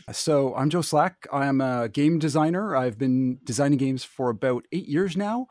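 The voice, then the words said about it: Canadian English accent. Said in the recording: “I love your accent ... Total giveaway. You're Canadian.”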